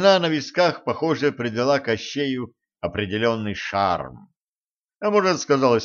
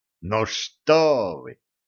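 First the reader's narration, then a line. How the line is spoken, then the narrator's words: Exclamation, then softer. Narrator (Russian): воскликнул Кощей и тут же сбавил тон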